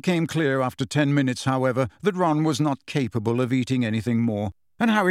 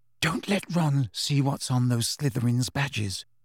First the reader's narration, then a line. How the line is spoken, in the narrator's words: whispered urgently